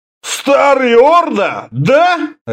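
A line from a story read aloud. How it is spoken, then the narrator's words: Barked, one-eyed man. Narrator (Russian): рявкнул одноглазый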